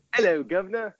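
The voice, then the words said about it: Exaggerated put-on British accent. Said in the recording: “my British accent ... Dick Van Dyke”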